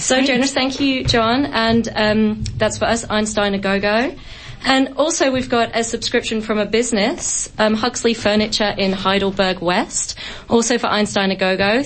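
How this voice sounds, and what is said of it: Husky, rough voice. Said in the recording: “you're sounding a bit husky. Are you getting over a bad throat or something?”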